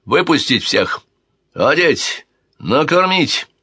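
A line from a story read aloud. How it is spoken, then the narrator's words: Sharp shout. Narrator (Russian): резко выкрикнул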